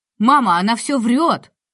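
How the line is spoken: Excited shout. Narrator (Russian): в возбуждении закричал он

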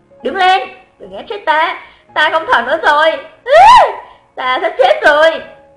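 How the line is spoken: Angry shout amid laughter. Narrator (Vietnamese): Trong tiếng cười khủng bố của mọi người, giận dữ hét lên

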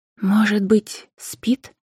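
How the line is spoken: Quiet question. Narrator (Russian): тихо спросила Анфиса у Макара

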